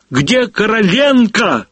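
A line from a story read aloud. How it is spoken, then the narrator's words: Sudden shout. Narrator (Russian): закричал вдруг Некрасов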